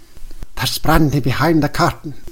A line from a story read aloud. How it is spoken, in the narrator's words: whispered the rector